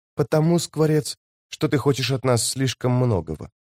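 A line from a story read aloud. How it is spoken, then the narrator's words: Whispered reply. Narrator (Russian): прошептав в ответ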